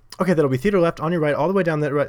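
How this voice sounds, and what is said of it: Very fast speech. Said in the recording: “I'm not even doing a British accent, but like so quick”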